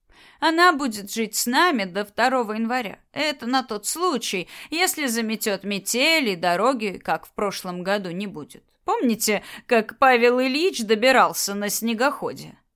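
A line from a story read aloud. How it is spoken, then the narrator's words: Laughing. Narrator (Russian): засмеялась Агния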